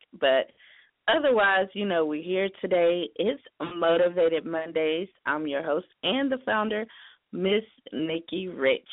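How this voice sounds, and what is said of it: Hoarse, strained voice. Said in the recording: “My voice is kind of gone. ... I had a slight cold last week”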